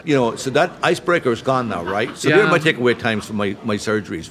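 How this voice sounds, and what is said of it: Irish accent. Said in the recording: “I don't have an Irish accent in Ireland”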